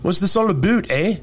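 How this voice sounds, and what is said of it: Poor put-on Canadian accent. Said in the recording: “our Canadian accent is terrible, and it's a terrible impersonation”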